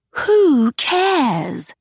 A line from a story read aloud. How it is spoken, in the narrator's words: Augusta spat